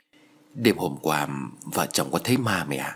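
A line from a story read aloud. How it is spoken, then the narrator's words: Whispered. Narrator (Vietnamese): Giọng nói thì thầm của con trai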